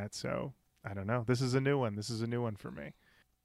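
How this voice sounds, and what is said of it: Subdued, restrained voice. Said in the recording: “I feel like I'm hearing you do, like, a subdued voice right now.”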